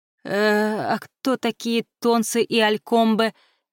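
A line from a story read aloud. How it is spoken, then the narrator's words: Uncertain question. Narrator (Russian): неуверенно спросила Хел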